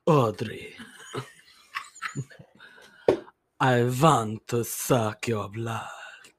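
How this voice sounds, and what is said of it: Dracula vampire voice impression. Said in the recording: “accent ... Give me your best Dracula impression ... That was good.”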